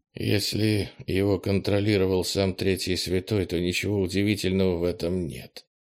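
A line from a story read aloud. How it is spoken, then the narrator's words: Muttered. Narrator (Russian): пробормотала Кластер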